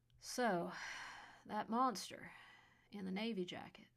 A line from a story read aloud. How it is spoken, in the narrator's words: asked wearily after they both finished